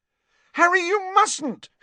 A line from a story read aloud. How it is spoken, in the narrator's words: shrieked Hermione